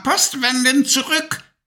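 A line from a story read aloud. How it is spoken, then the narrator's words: Shrieking witch. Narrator (German): kreischte die Hexe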